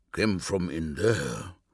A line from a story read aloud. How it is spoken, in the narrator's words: murmured Numion